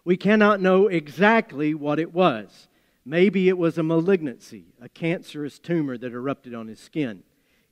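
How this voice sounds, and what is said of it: Appalachian American accent. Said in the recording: “my Appalachian accent”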